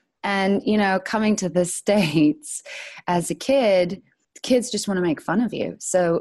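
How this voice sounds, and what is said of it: Usual voice. Nothing is said of it.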